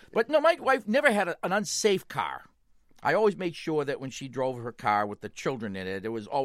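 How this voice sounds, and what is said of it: Usual voice. Nothing is said of it.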